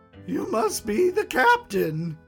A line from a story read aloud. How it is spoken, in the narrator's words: Barty asked, his smile never faltering